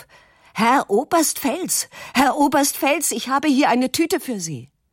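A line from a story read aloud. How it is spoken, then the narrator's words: Shouting upward. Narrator (German): schreit zu der Klippe hinauf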